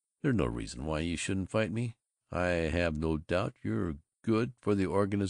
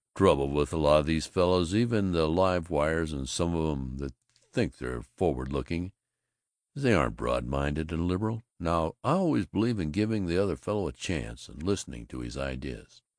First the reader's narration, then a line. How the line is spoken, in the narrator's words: he rumbled